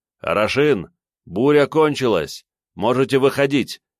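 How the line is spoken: Shouted. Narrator (Russian): крикнул я им

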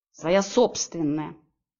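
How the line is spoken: Snapped. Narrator (Russian): огрызнулась я

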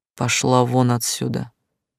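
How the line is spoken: Lazy drawl. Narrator (Russian): лениво сказал

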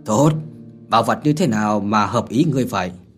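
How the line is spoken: Laughing loudly. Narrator (Vietnamese): Thiên Vận Tử cười lớn mà nói

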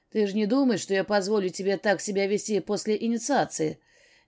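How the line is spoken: Displeased tone. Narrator (Russian): Недовольным тоном спросил он

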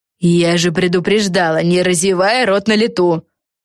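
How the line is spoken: Grumbling. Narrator (Russian): проворчала Фелисити

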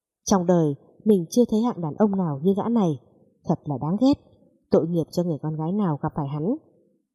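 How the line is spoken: Irritated mutter. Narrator (Vietnamese): Mẫn Nghi vẫn còn bực dọc lẩm bẩm

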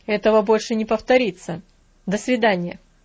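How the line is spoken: Dry. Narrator (Russian): сухо сказал леса

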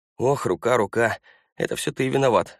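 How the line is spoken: Groaning. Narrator (Russian): застонал я

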